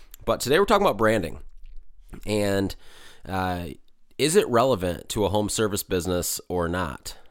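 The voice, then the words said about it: Slightly raspy voice. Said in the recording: “my voice sounds a little raspy. I'm a tad bit under the weather... forgive me if I sound a little bit raspy”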